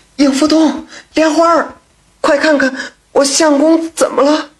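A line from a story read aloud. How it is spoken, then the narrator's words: Panicked crying out. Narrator (Chinese): 阴娘也只是惊慌失措，只是一直失声的叫着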